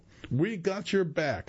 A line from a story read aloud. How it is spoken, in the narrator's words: the crowd shouts in unison